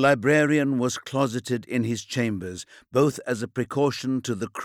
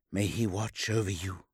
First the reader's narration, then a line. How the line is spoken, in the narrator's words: whispered Odysseon